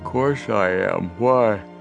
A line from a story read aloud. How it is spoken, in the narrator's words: Biff said drowsily